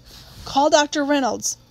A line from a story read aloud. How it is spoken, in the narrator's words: Atticus' voice came sharply from Jim's room